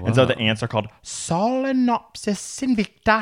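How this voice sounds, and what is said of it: Put-on Icelandic-sounding accent. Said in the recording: “What accent did you think you were putting on? ... It sounded like Icelandic.”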